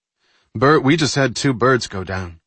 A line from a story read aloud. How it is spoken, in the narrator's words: Intelsat's duty engineer reported in a slightly shaken voice